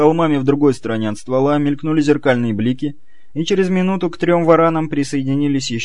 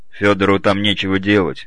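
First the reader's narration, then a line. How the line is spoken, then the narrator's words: Mutter. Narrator (Russian): буркнул Белый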